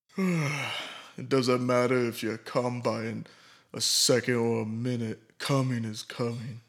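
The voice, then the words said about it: Imitates another person's voice. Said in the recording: “my best Vin Diesel impression.”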